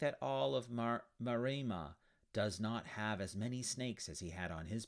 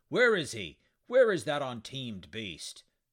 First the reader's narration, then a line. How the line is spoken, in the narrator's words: a raging centaur gallop up, roaring